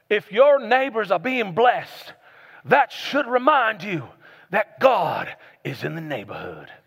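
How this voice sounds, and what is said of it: Put-on Southern preacher accent. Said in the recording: “an old Southern preacher ... he had like an accent, I'm gonna do a horrible job at it”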